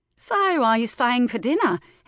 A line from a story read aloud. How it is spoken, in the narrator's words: Elsie asked over the laughter